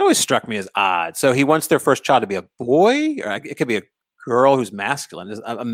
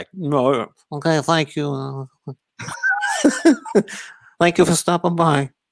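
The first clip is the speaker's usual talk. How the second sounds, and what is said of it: Brando as Corleone impression. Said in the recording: “great Brando impression, uh, Corleone impression”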